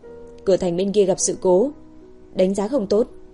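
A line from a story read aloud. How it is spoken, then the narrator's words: Old man speaking quietly. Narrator (Vietnamese): Lão già kia nhỏ giọng nói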